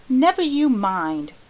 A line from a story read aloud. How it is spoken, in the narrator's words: cried the Story Girl loyally